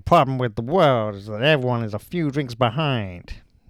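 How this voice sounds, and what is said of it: Imitates another person's voice. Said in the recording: “I can do an impression? ... Not a great impression. ... So, Australian. ... Are you doing James Cagney? ... I was. I was, but I wasn't.”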